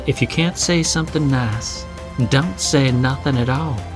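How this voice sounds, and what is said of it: Put-on Southern American accent. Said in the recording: “Your mom suddenly has a southern accent... She's a southern belle.”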